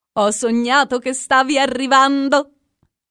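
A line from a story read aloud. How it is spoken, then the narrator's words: Shouting. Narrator (Italian): gridava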